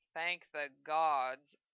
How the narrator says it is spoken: Zell chuckled

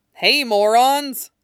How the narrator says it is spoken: He barked

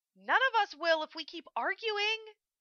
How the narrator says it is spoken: Hokuto cried

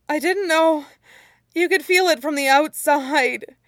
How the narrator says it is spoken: Hoisung didn't even try to speak for the longest moment, before he finally wheezed out

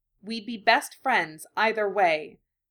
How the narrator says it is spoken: he said, his tone insistent and even

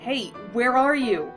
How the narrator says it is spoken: shouted

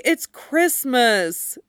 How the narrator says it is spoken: Dick whined

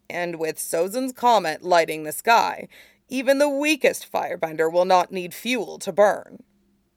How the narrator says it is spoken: Shiyu said grimly

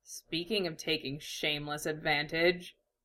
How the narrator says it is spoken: Iruka said dryly

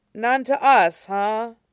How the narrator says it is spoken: He groaned

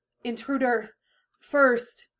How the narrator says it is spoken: The strain in her voice

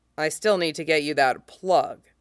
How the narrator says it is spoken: he says gruffly

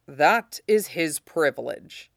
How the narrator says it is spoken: Ned said grimly

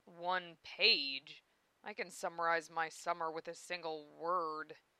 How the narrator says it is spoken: began Zell gloomily

